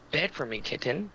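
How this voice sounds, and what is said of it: Seductive whisper. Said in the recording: “she whispers in my ear in a very seductive voice, which I can't really do the voice that well”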